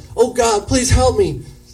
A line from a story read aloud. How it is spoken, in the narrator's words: he yells out